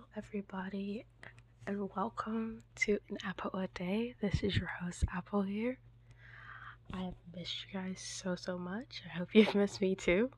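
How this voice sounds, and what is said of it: Slightly sick, off-sounding voice. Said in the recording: “A little under the weather, so that's why my voice is a little off”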